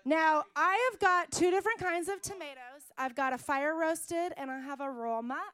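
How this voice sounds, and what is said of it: Speaks with a put-on accent. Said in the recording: “I don't know why everything's going to be with an accent.”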